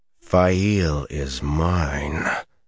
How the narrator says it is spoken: Perrin growled

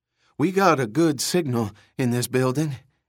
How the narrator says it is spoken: he panted

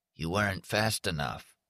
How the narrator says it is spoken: from deep inside at the bottom of the pipe, which was the throat, a voice muttered

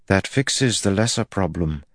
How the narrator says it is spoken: Elaine said softly

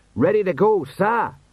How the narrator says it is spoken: he shouted

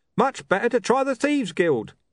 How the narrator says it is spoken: a man yelled

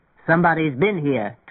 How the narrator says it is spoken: Tweeny grumbled

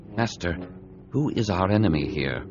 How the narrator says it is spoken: Obi-Wan asked quietly

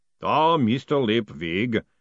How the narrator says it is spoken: boomed the voice of Mr

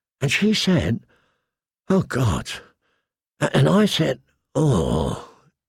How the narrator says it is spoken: he groaned

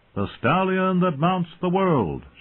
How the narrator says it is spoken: bellowed in 1,000 voices

